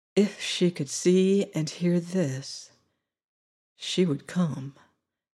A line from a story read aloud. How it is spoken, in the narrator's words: he said softly